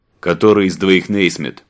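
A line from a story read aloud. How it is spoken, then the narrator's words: Booming over loudspeaker. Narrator (Russian): Прогудел усиленный громкоговорителем голос одного из солдат в биозащите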